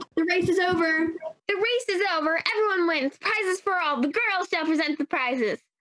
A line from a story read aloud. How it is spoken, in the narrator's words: Very suddenly, the dodo yelled